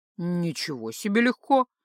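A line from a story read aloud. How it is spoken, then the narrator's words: Grumbling. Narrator (Russian): проворчал Микаш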